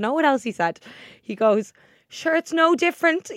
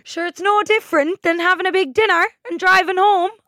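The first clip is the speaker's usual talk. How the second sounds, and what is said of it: Deliberately bad Kerry Irish accent. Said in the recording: “He has a Kerry accent, so I'm about to do a really bad Kerry accent... Is that a Jamaican?... Cork.”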